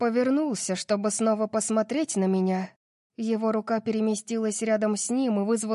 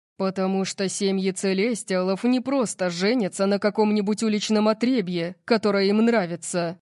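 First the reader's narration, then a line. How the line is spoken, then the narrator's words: Growled. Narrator (Russian): прорычал он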